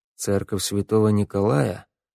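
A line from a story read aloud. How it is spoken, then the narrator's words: Muttered. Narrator (Russian): пробормотал Вик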